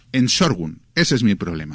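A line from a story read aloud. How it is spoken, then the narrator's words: Snapped. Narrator (Spanish): me espetó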